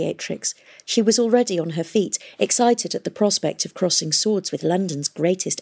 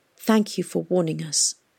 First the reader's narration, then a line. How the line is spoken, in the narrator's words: she said gently, as if she understood the agonising decision he had to make